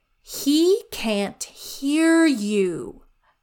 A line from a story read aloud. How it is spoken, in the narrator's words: said the trickster, loudly and slowly, as if explaining something very obvious to someone very slow